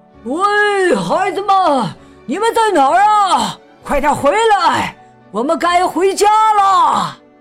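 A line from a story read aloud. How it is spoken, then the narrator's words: Worried loud shout. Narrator (Chinese): 约翰非常担心，他大声喊道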